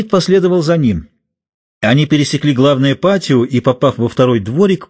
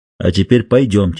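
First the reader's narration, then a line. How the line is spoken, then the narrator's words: Plain. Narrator (Russian): сказал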